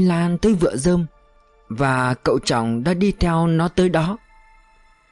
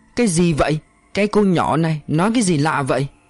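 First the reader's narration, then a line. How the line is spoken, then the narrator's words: Shout. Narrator (Vietnamese): Trọng Minh hét lên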